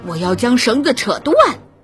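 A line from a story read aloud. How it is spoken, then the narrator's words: Beastly shout. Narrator (Chinese): 野兽喊着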